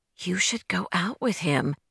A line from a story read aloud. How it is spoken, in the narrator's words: Carolyn whispered behind her